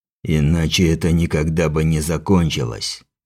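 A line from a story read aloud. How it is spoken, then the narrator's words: Strange, unfamiliar voice. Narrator (Russian): заявил он чужим голосом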